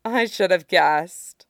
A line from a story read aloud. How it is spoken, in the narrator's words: Karasu sighed